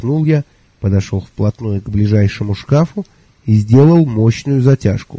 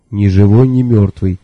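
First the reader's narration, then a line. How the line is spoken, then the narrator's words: Plain. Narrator (Russian): сказал Мелифару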